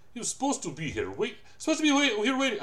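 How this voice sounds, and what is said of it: Shifting Latin American-Russian put-on accent. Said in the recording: “I keep switching from like my Latin American terrible accent to like my Zangief fucking accent, and I can't stop myself ... I went Irish Polish, but really it's Irish Russian”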